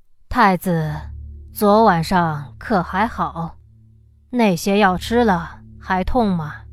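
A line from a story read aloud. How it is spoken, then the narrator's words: Soft sigh. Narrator (Chinese): 永乐帝 轻叹了一口气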